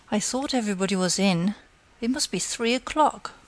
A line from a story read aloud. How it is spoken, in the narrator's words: grumbling